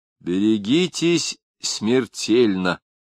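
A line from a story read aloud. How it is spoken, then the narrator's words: Approving grunt. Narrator (Russian): одобрительно хмыкнул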